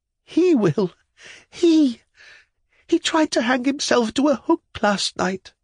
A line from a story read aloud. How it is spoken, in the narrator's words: said the child, panting with haste and excitement